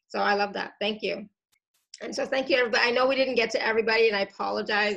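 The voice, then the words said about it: Voice going hoarse and strained. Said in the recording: “I'm starting to lose my voice.”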